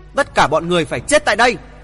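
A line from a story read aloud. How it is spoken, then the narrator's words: Thunderous shout. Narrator (Vietnamese): Hoàng thượng Chí quát to như sấm nổ vang trời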